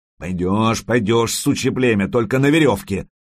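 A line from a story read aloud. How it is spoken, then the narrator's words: Yelled in a trembling voice. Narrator (Russian): заорал тот, у которого дрожал голос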